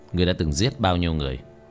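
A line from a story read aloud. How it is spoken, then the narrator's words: Cold, sneering laugh. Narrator (Vietnamese): Tiểu Thất cười nhạt nói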